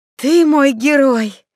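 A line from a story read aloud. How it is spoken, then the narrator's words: Moaning with anticipation. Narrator (Russian): Светка даже застонала от предвкушения сочного жаркого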